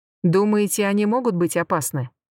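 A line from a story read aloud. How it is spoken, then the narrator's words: Plain. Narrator (Russian): спросил Дан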